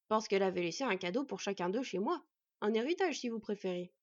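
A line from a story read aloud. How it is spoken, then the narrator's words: Plain. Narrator (French): répondit le dvergue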